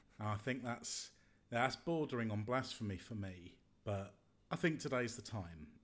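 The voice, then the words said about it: Husky voice. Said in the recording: “I've been a bit poorly over the last couple of days... my voice is a little bit husky today”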